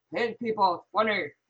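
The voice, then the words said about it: Exaggerated deep voice. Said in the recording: “do my Connor voice... It's this really deep voice.”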